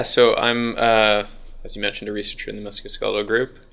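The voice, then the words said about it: American accent. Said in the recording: “If you can't tell by the accent, I'm American.”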